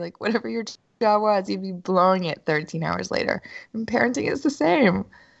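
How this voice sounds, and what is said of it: Congested, stuffy-nosed voice. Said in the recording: “I have a sinus infection.”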